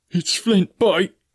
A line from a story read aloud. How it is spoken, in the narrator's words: cried